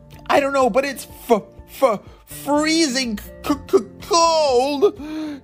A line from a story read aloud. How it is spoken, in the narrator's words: shouted Lev